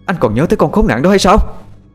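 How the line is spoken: Red-faced angry shout. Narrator (Vietnamese): vợ anh lúc này mặt đỏ như gấc, cô ta quát lên

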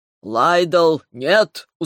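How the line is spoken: Tired reply. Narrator (Russian): устало откликнулся Ревел

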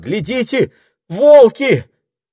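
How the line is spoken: Terrified cry. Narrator (Russian): Пенелопа с ужасом вскрикнула

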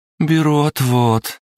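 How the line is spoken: Ironic drawl, like a lawyer. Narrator (Russian): иронично протянула Кристина, будто адвокат в суде

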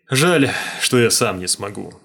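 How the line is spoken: Sigh. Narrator (Russian): вздохнул Смайк

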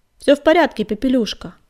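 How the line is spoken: Shouted. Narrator (Russian): крикнул Огнегриф

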